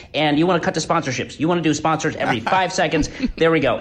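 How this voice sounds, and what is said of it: Fast nasal imitation of another person. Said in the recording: “a good Ben Shapiro impression ... speeding up your voice like this, like maybe plug your nose a little bit. He's a little nasally ... you really want to speed it up like really fast”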